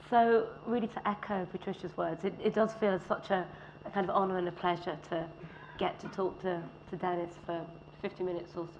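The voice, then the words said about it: Hoarse, weak, nearly lost voice. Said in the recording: “As you can probably hear already, I've sort of lost my voice ... you have to excuse me if I start coughing”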